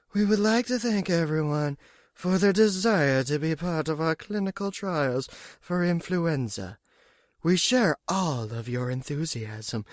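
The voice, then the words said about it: Imitates another person's voice. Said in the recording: “my Yvette Hartman impersonation”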